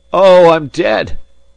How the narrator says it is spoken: he cried, several times over

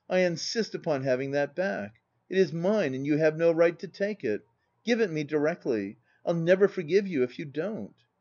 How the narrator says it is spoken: cried I

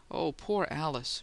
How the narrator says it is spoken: she moaned

